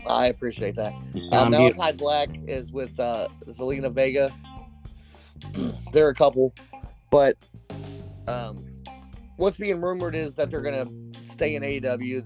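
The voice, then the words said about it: Sick, weird-sounding voice from cold. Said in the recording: “I'm sick, guys, so if my throat doesn't sound, if my voice sounds weird ... I'm dealing with a cold here.”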